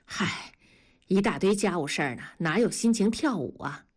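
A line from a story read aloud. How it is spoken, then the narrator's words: Sighing. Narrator (Chinese): 文丽叹息着说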